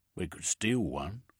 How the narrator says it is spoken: Pertrand said

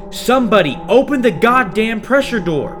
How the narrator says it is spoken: It required all my strength to shout into my comm

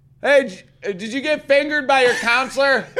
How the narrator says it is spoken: They yell

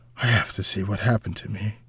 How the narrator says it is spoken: muttered

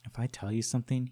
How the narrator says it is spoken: he said quietly

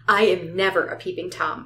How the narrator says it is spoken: I said sharply

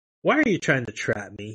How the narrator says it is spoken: he said

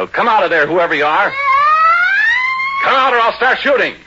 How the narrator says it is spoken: I yelled

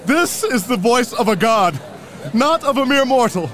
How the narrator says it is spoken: They shouted

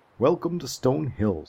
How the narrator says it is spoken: said the smith

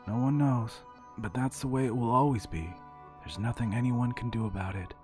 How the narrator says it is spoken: said Woodrow, his voice flat with exhaustion

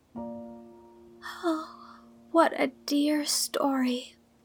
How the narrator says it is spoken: sighed Anne, wiping away her tears

